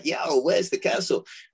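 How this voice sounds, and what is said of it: Put-on American accent. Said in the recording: “excuse my US accent”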